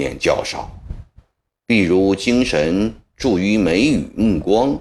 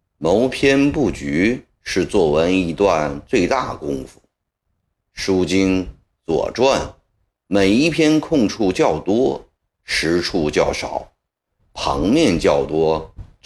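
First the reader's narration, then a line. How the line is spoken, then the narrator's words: Slow, measured. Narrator (Chinese): 曾国藩慢慢地说道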